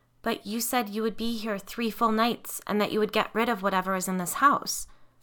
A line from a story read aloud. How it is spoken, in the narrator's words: I said, trying desperately not to sound as desperate as I felt